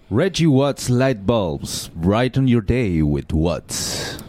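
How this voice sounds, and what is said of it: Smooth radio announcer voice. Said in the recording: “got a good radio voice”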